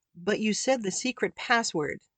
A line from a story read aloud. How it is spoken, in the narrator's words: finally said